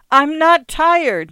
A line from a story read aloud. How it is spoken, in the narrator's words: Nathaniel screamed